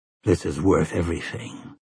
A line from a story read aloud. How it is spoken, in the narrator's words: said hoarsely